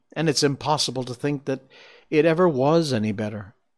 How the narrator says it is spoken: Auntie Ina sighed too

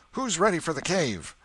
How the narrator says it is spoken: somebody shouted

